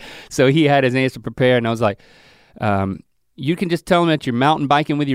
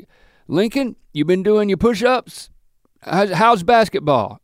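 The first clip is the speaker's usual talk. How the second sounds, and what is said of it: Impersonation of another man's voice. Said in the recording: “I'm talking like Lewis. I'm like doing my impersonation of him.”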